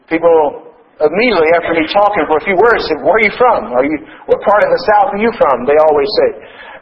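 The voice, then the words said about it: Southern-sounding accent. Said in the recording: “my accent ... they heard a Southern accent”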